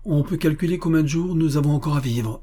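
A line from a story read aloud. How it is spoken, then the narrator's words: Exclaiming. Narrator (French): s'écria M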